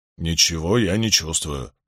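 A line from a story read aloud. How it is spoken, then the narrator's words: Muttering. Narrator (Russian): пробормотал Ранд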